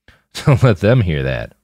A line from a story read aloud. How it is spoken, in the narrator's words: Roland laughed